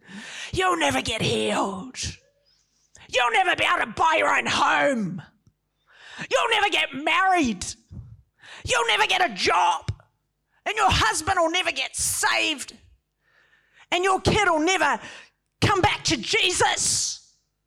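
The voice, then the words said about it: Pretend demon voice. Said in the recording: “my pretend demon voice. I'm just putting it on.”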